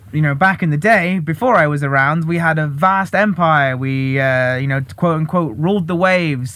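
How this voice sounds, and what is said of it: British accent. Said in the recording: “the UK, which, as you can tell from my accent, is the country where I was originally born”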